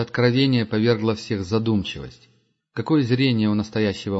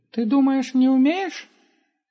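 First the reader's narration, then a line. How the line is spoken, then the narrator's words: Squeaky voice. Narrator (Russian): пропищал Густав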